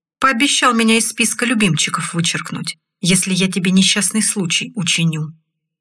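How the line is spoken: Calm tone. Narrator (Russian): спокойным тоном ответил Олег

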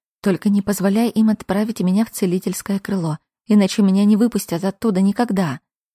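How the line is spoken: Whisper. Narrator (Russian): прошептала

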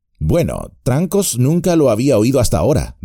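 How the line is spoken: Plain. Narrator (Spanish): dijo Bilbo

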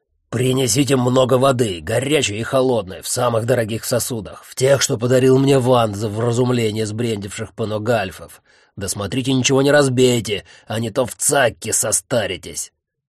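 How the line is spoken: Growled rapid command. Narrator (Russian): Рычащий скороговоркой приказал им Таункрафт

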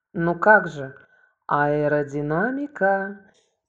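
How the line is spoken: Drawn out. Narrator (Russian): протянул Юра

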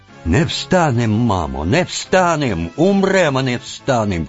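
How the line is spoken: Cossack crowd shouting. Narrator (Russian): кричали запорожцы

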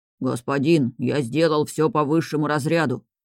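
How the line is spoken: Deep bass reply. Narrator (Russian): басил в ответ более молодой

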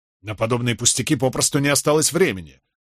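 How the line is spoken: Irritated curt remark. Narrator (Russian): раздраженно бросил Кэт

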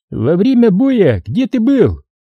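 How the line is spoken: Shouting. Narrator (Russian): крикнул Гусейнов Мадаеву

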